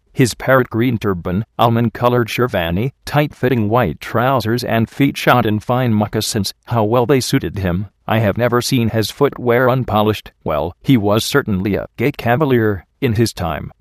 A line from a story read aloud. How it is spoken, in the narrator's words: Ramju chuckled